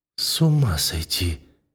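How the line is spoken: Breathless muttering, young woman. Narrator (Russian): бормочет девушка, задыхаясь

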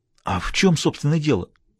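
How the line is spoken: Agitated question. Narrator (Russian): взволнованно поинтересовался Бассетт

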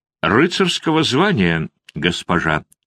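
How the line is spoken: Calm reply. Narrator (Russian): спокойно ответил Готье

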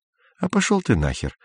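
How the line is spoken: Plain. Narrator (Russian): сказал Изя

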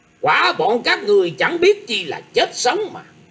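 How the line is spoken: Cold shouting old man. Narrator (Vietnamese): Lão già mặt xanh liền cất tiếng hừ lạnh lùng quát lên

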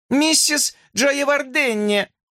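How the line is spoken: Girl yelling. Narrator (Russian): завопила девочка

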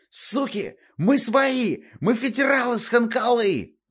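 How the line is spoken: Yelling. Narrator (Russian): орал им Котельский

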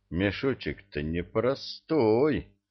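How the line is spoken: Muttered. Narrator (Russian): пробормотал

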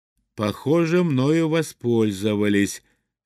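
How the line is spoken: Plain. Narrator (Russian): сказал я

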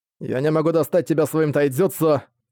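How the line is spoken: Grumbling. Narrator (Russian): проворчал Тенма

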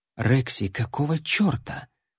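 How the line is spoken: Woman warrior whispering. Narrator (Russian): прошептала воительница

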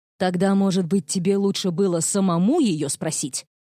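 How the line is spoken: Snapping retort. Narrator (Russian): огрызнулся Нейтан

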